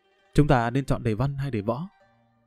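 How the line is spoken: Gentle question. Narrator (Vietnamese): Đại tiểu thư nhẹ nhàng hướng tới Lâm Văn Vinh hỏi

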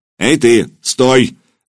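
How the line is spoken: Barked order. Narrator (Russian): рявкнул десятник

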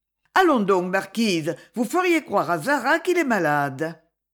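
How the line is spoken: Joyful voice. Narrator (French): Alors la reine, d'une voix joyeuse

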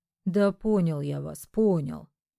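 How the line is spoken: Offended grumble. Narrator (Russian): с обидой пробурчал риэлтор

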